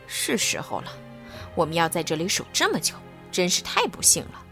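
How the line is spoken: Muttering to himself. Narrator (Chinese): 另外一个人喃喃自语说

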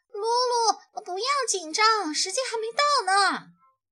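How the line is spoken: Shouting from behind. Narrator (Chinese): 咪咪在后头喊着

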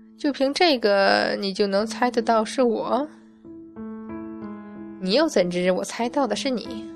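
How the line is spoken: Old, sighing, curious. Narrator (Chinese): 一声大叹，一个苍老的声音好奇的问

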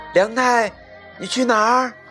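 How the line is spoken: Mother calling out. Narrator (Chinese): 妈妈叫着

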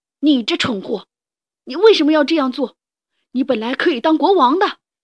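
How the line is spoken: Furious roar. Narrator (Chinese): 卡利哥勃然大怒，吼道

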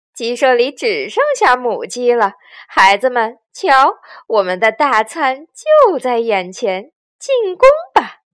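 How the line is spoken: Strange cackling laugh. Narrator (Chinese): 强盗巴巴怪声笑道

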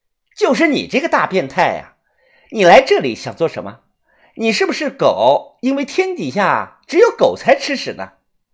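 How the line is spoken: Loud scolding. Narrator (Chinese): 柳川鱼他大声的骂道

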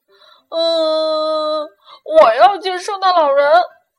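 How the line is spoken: Crying out. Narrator (Chinese): 他哭喊着

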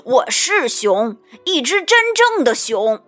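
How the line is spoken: Angry roar. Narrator (Chinese): 大熊怒吼着

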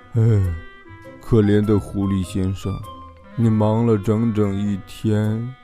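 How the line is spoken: Sighing. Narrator (Chinese): 小猪叹了口气说

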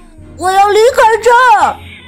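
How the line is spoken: Distressed shout. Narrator (Chinese): 卡斯伯特不想再等了，他感觉糟糕透了，他大叫道

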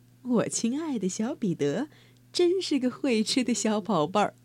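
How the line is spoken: Soft laughing voice. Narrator (Chinese): 她呵呵一笑，轻声说道

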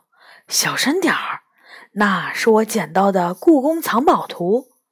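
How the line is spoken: Hushed. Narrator (Chinese): 元宝压低声音说

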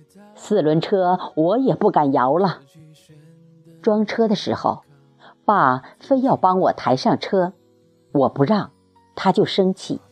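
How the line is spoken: Sighing. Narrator (Chinese): 三舅也感叹道

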